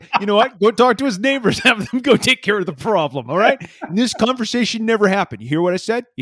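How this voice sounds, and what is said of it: Shifting put-on accents, impersonation. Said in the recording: “That was a good accent. I don't know who you were impersonating, but you nailed it. ... I went through a range of accents in that one. ... where it started and where it ended was not the same.”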